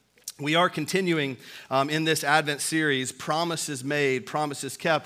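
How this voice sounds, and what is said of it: Weak voice, has a cold. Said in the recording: “a little bit of the Africa cold ... my voice is a little bit weak this morning”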